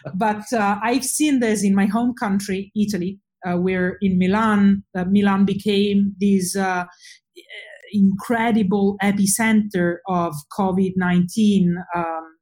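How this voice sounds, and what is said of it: Italian accent in English. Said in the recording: “I'm Italian, as you probably guessed from my accent.”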